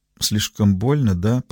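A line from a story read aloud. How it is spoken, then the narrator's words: Quiet, soft. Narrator (Russian): произнесла она тихо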